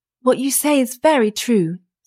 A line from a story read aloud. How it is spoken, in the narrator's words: said the wife, sighing